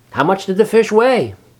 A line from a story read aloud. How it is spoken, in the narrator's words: asked Wilbur eagerly